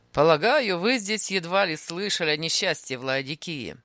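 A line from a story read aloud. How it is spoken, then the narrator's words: Mocking tone. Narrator (Russian): сказал он насмешливо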